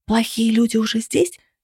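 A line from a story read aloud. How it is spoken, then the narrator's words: Whispered. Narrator (Russian): шепнул он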